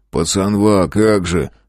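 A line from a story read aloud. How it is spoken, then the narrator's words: Smirking grunt. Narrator (Russian): хмыкнул Бекешин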